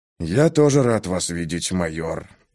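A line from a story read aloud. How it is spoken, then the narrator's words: Grumbled under breath. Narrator (Russian): проворчал себе под нос Хэнк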